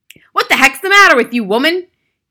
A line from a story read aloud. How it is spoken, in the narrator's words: he shouted